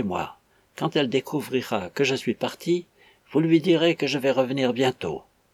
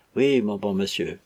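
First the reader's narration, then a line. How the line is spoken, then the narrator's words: Impassive voice. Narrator (French): fit Catherine, d'une voix impassible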